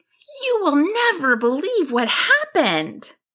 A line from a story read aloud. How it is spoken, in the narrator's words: simultaneously, they exclaimed